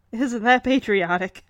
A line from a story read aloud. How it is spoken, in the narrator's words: chuckles and says